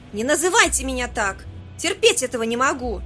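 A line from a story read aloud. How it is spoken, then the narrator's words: Shrill shriek. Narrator (Russian): выкрикнула она так визгливо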